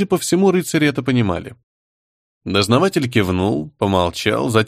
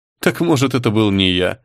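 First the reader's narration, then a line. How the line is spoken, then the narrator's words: Laughing. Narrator (Russian): рассмеялся Артем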